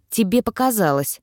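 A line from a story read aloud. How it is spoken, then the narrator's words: Dry reply. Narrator (Russian): сухо отозвался Илай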